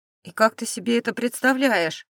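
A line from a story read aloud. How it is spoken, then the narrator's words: Displeased snort. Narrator (Russian): недовольно фыркнул Филипп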